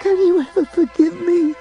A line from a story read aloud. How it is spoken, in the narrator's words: Pete was sobbing